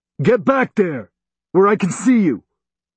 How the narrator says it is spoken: he yelled

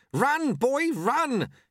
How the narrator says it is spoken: shouted Lutze

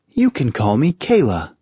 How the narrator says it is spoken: she said cheerfully

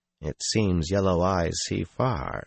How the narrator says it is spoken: Sulin said flatly

